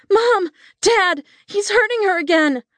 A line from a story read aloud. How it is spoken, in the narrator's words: I shrieked from the foot of the stairs